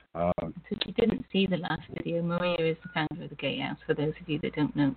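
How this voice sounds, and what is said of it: English accent. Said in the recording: “My accent. ... Well, I am English”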